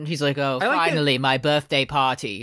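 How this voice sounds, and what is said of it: Imitates another person's voice. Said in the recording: “how good and effortlessly good your Matt Smith impression is”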